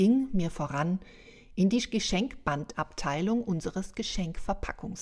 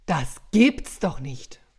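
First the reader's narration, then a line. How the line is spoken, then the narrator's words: Angry bluster. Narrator (German): polterte ich … wütend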